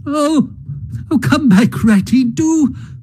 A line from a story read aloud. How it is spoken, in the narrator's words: cried the mole